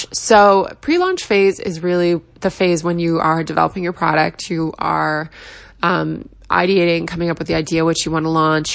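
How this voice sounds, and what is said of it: Rough, tired voice with vocal fry. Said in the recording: “apologize for my voice. I just got off a red eye um, this morning, so it's sounding a little rough ... that annoying vocal fry”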